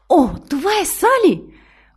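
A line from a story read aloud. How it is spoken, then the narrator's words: Delighted exclamation. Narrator (Bulgarian): възкликнала възхитено тя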